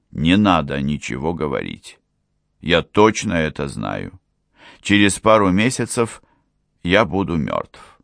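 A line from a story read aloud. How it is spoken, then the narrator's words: Stern. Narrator (Russian): наследник строго произнес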